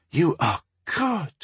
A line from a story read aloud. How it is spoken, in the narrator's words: she whispered